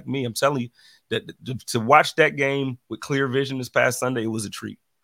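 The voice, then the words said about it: Weak, mostly lost voice. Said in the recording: “My voice is still kind of gone. It's coming back.”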